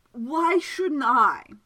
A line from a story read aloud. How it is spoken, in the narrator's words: slurred the man